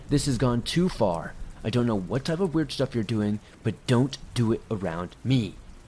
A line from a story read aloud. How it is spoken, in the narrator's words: he angrily began yelling